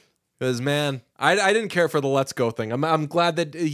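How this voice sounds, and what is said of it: Usual voice. Nothing is said of it.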